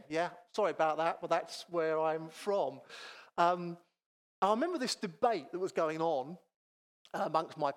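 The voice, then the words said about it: North Kent Thames Estuary English accent. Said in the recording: “So I've now got the North Kent Thames Estuary thing.”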